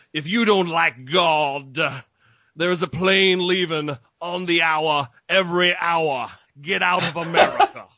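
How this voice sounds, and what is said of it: Televangelist preacher voice. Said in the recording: “I rather love your accents. I think you're spot on almost always ... if I can do any accent, it's fucking the televangelist ... That is money.”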